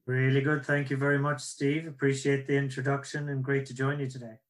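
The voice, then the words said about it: Irish accent. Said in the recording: “that's my Irish accent”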